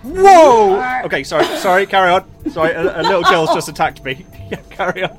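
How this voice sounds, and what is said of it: British accent. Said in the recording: “We are suckers for an accent. ... Especially a British one.”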